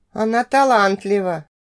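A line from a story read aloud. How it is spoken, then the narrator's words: Sighing dwarf. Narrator (Russian): Вздохнул гном минуту спустя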